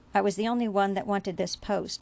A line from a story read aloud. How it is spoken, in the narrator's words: Bashir answered coldly